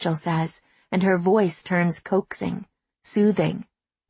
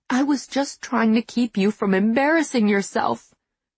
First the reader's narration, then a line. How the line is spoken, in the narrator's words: Rachel says, and her voice starts to quaver